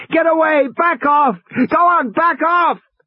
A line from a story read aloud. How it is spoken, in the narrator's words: Regis was shouting at the top of his lungs